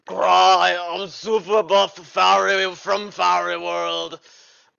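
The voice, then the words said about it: Schwarzenegger-style buff fairy voice. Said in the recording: “an actual accent from the show, where there is in fact a Schwarzenegger type character”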